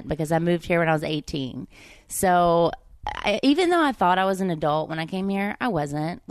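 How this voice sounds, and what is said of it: Southern and Valley girl accent mix. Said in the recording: “It's a Southern accent mixed with a Valley girl accent”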